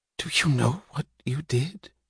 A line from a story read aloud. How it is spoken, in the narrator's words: he whispered, as if unable to believe that it was meant for him